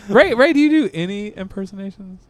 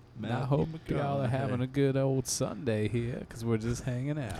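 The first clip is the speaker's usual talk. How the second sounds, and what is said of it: Relaxed, gravelly Southern voice impression. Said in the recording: “We're Matthew McConaughey... All you got to do is be super relaxed... It's all about the voice gravel. You got to let yourself kind of. Gravel.”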